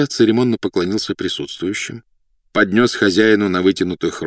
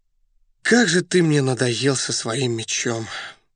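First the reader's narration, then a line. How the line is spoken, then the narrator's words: Weary sigh. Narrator (Russian): вздохнул Раст Петрович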